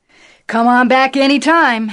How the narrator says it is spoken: Howard Mitla shouted

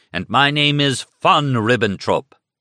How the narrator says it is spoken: he shouted

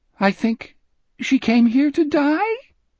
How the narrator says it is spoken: His voice rose impossibly on the last word, making a squeak like an unoiled hinge

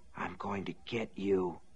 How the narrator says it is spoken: Norris Ridgwick whispered

